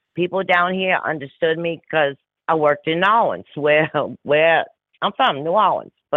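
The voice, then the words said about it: New Orleans accent. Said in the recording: “y'all like to hear an accent because I crucify the English language ... we do have an accent ... I love that accent”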